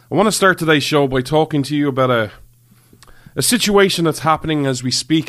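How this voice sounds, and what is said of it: Irish accent. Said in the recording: “This Irish man ... you come for the accent, the wee wee the accent”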